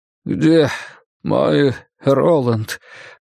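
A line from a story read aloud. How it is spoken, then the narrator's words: Old man mumbling. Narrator (Russian): пробормотал старик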